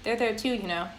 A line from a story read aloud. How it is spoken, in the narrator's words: Samara said